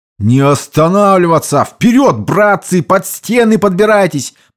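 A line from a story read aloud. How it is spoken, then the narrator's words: Sergeant shouting. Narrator (Russian): прокричал сержант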